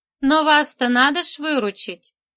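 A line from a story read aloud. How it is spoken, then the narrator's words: Reply with chuckle. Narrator (Russian): отозвалась Манька и опять хохотнула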